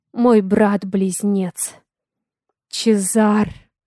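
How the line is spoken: Stunned breathless exhale. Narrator (Russian): Ошеломленно выдохнул

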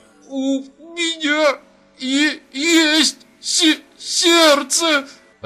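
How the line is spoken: Sobbing speech. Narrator (Russian): Рыдая, проговорил Баренбойм

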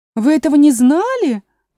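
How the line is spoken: Exclaiming. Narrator (Russian): воскликнула другая Маргаритка

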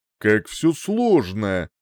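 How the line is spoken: Exasperated grumble. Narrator (Russian): в сердцах проворчал я

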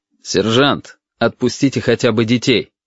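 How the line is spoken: Plain. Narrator (Russian): сказал отец

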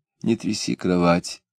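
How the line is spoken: Quiet request. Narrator (Russian): тихо попросила жена

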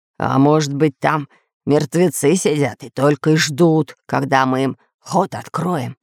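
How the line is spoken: Hoarse question. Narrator (Russian): хриплым голосом спросил Буль-Буль

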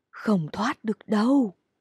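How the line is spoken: Eerie whisper. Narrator (Vietnamese): một tiếng thì thầm đáng sợ

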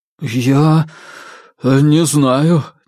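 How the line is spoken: Uncertain mumble. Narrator (Russian): неуверенно промямлил хозяин усадьбы

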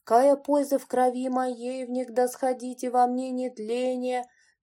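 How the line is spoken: Mournful chant, psalm reader. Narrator (Russian): начал заунывным голосом псаломщик

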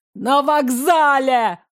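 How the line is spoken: Yell. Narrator (Russian): заорал Мирон

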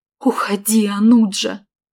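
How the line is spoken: Pleading. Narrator (Russian): взмолилась я

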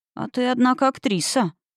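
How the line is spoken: Amazed whisper. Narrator (Russian): поразился шепотом Конрад

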